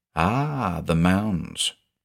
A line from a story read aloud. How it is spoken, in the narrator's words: she said in her soft Midwestern accent